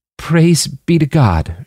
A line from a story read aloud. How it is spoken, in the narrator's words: she choked out